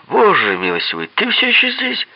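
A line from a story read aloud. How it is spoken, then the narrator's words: Exclaimed. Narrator (Russian): воскликнул он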